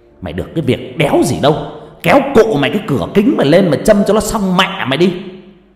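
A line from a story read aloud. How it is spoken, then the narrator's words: Irritated snapping. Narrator (Vietnamese): Không chịu nổi cái bản giao hưởng xô nát chậu rách giữa cái nóng oi ả điên dại, anh tài xế gắt lên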